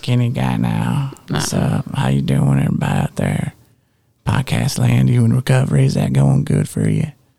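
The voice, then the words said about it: Put-on country accent. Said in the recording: “so when you get thinner, you get a country accent.”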